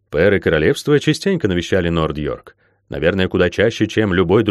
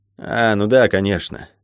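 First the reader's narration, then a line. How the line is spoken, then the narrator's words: Boy sighing. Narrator (Russian): вздохнул рыжий мальчишка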